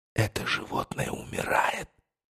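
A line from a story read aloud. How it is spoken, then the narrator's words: Whisper. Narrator (Russian): прошептал я Дону Хуану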